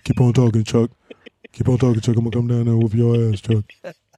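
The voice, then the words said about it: Imitates another person's voice. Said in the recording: “your Shaq impersonations during the stand-up”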